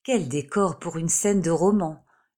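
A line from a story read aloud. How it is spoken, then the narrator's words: Captain murmuring. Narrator (French): murmura le capitaine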